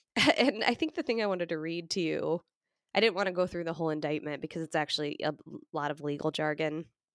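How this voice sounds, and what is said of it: Slightly congested voice from cold. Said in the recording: “I have a little bit of a cold.”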